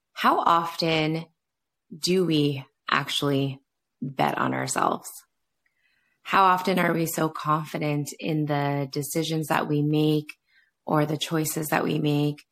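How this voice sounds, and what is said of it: Rusty, slightly rough voice. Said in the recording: “my voice is a little bit rusty”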